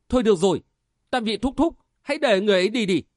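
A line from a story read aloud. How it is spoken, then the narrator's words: Called out. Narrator (Vietnamese): Lê Tường cất tiếng kêu lên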